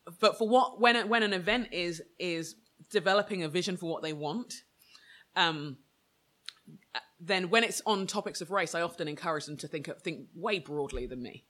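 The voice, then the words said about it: British English accent. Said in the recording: “I come as a black Brit with an English accent, and I get discounts in stores just for the way I sound”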